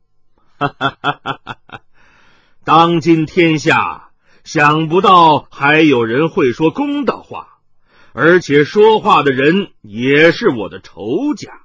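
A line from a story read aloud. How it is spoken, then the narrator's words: Laughing. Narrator (Chinese): 麻衣客方自笑道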